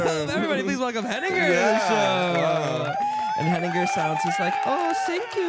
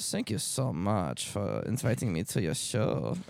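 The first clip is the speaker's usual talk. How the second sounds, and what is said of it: Put-on German accent. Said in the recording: “German? ... That's kind of a German accent, right?”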